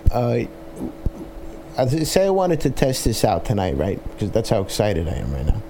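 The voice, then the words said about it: Brooklyn accent. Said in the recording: “I know you hear my Brooklyn accent. ... It comes out sometimes.”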